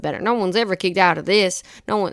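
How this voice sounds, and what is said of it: Imitates another person's voice, Southern drawl. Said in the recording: “my Jim Ross impression ... I don't know if he's that Southern”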